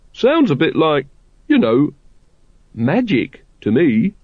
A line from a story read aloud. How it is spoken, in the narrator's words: said Brother Watchtower, in the nervous tone of the man who has spotted which cup the pea is hidden under, but doesn't like to say